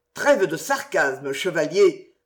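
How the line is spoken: Hasty curt voice. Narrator (French): se hâta de reprendre Choisy d'une voix brève

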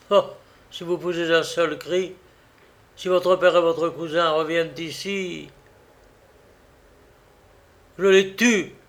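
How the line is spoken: Murmured. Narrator (French): murmura Fleurimond

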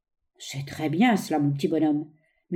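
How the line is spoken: Pitying murmur. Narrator (French): murmura le milliardaire sincèrement apitoyé

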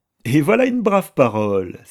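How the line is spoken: Admiring exclamation. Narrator (French): s'écria-t-il, admirant beaucoup mon ingénuité

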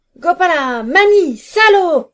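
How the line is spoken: Shouting in the dark. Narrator (French): cria-t-il dans le noir

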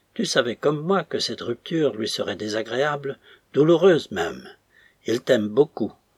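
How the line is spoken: Exclaimed. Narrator (French): s'écria-t-il

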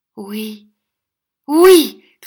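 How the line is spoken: Eager, lively shout. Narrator (French): cria Smic avec un redoublement de vivacité

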